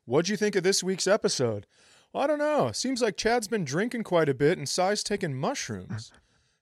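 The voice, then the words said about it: Impersonating podcast listeners. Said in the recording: “Here's my impersonation. Here's my impersonation of the listeners this week.”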